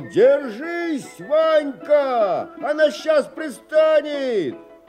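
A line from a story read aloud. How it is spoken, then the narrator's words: Father shouting. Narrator (Russian): отец кричал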